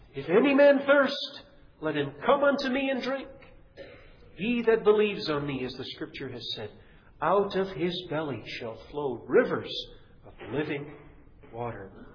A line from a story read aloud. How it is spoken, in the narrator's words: Jesus stood up and cried out